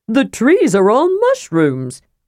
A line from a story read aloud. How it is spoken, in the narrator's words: cried